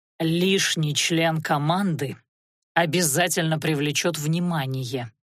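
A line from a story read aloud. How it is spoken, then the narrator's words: Through gritted teeth. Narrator (Russian): процедил некромант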